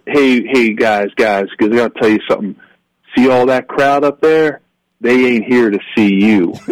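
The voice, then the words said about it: Imitated North Carolina accent, Alex Gibbs. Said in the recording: “he had this fantastic North Carolina accent. I'll probably butcher it, being, you know, Italian kid from South Philly.”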